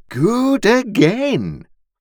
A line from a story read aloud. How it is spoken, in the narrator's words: Pumblechook cried audibly